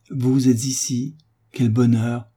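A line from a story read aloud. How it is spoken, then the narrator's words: Exclaiming. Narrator (French): s'écria-t-elle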